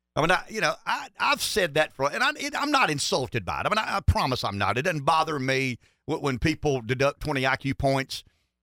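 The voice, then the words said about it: Southern US accent, South Carolina. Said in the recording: “a good Pamplico boy. You notice we might have a similar accent there ... when I say y'all or ain't, the way I say y'all or ain't”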